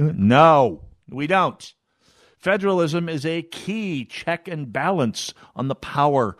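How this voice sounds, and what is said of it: Usual voice. Nothing is said of it.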